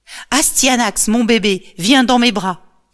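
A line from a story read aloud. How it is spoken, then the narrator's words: Exclaimed. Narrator (French): s'exclame Hector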